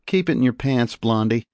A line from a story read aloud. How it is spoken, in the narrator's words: laughed